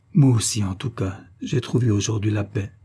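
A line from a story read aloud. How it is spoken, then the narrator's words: Faltering voice. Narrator (French): d'une voix qui défaillait presque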